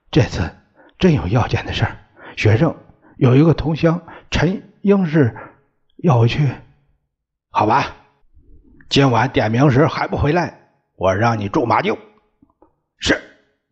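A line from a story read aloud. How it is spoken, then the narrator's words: Trembling voice. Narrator (Chinese): 蒋志清声音颤抖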